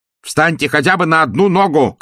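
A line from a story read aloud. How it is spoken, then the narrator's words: Shouted. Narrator (Russian): крикнул он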